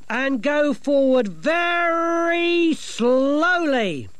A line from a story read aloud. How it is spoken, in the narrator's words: she bellowed